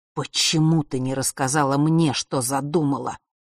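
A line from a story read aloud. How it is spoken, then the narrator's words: Father's hiss through teeth. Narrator (Russian): прошипел отец сквозь зубы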